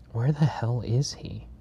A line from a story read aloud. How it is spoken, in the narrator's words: Barrett mutters to himself